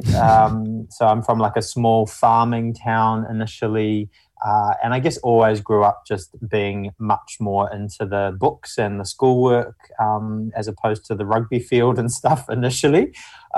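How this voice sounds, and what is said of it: Mumbly New Zealand accent. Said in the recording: “I'm initially from New Zealand. You can probably tell from the mumbly accent.”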